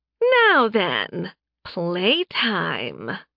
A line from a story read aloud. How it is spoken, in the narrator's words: Laura purred